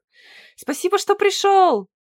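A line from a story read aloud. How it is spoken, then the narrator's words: Shout. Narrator (Russian): прокричал Нест чудовищу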